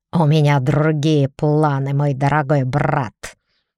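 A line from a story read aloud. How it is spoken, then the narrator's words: Growled. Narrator (Russian): рыкнул Генри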